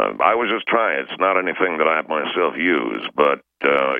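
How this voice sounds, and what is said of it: Usual voice. Nothing is said of it.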